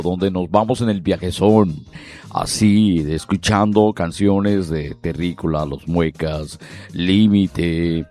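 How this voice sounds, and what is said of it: Radio announcer voice. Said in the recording (Spanish): “la voz que me sale como locutor ... esta voz de locutor”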